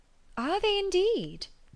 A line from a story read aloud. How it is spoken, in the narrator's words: cried Elizabeth, with the greatest satisfaction